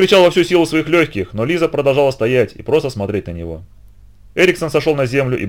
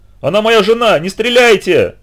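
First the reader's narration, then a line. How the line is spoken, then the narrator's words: Frantic, frightened, shivering yell. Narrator (Russian): заорал Эриксон, испуганный, обезумевший и дрожащий от холода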